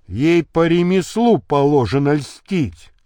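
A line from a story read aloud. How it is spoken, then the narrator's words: Plain. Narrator (Russian): сказал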